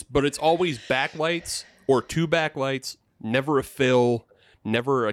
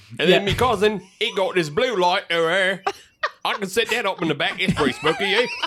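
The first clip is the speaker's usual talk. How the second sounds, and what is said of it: Put-on cockney British accent. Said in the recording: “My British accent... Michael Caine... too posh... I'm gonna get more cockney. I'll try harder.”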